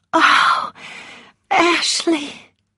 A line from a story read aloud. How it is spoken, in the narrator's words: she whispered happily